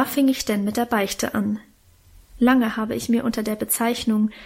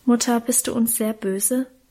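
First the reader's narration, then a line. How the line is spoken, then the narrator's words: Fearful question. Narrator (German): fragte Karl ängstlich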